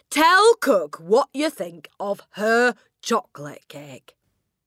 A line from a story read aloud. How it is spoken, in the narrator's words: the Trunchbull boomed